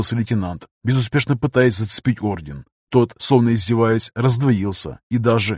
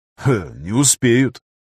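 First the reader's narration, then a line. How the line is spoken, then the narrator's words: Wry grunt. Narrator (Russian): хмыкнул контрразведчик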